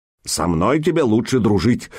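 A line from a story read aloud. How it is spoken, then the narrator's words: Stern. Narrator (Russian): сказал он строго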